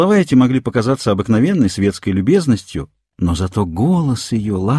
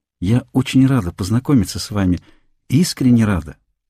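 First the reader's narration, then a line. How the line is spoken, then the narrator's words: Soft, gentle, smiling. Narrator (Russian): сказала она с очаровательной улыбкой и прибавила тихим, мягким голосом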